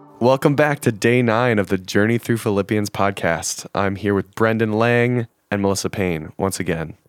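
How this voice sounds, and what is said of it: Deeper, rough voice. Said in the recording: “My voice is not great today. ... It is super little, deep. ... It is slightly deep. ... I've been fighting a cold.”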